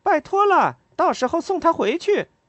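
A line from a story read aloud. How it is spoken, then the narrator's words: Calling out. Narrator (Chinese): 莉拉喊道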